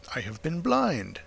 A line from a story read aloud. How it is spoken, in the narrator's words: cried the Colonel